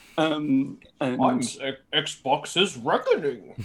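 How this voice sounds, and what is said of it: Imitates the villain Bane's voice. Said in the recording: “That was my Bane impression.”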